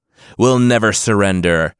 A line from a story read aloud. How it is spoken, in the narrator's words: Sigarthur's two men yelled